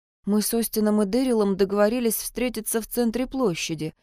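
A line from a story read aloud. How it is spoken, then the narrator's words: Quietly explaining. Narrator (Russian): тихо пояснила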